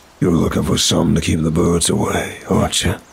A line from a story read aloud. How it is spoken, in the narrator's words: he said, his voice gravelly and dry